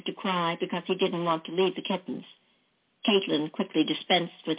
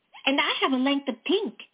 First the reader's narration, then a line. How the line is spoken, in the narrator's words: Caitlin exclaimed